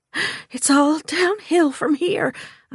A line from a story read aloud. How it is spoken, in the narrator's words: I wheezed